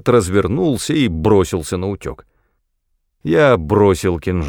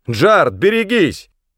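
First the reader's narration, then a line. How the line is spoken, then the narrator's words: Yelling. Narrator (Russian): заорал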